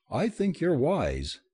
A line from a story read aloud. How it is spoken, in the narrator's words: David said warmly